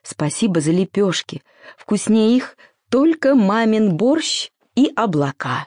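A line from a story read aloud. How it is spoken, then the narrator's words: Tender whisper. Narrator (Russian): ласково прошептал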